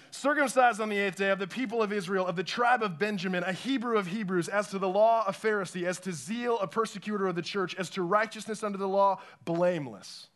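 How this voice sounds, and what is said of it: Fast preacher-style delivery. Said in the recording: “You said them really fast, kind of preacher voice.”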